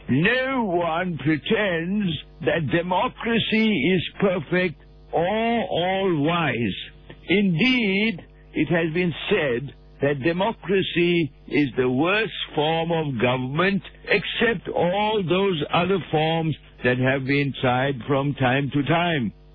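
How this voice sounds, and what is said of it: Winston Churchill impression. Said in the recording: “Let me just put my Winston Churchill accent.”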